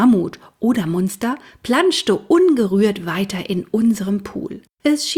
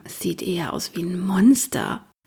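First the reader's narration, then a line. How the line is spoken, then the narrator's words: Quiet murmur. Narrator (German): leise murmeln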